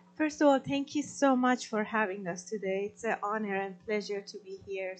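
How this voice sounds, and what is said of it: Non-native English, Farsi accent. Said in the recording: “I'm still working on my English, practicing, so I apologize with my accent, but I speak Farsi”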